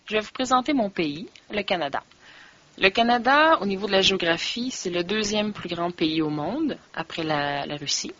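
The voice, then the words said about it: Canadian French accent. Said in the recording (French): “une jeune Canadienne dit avec son accent canadien ... il peut paraître un peu difficile à comprendre”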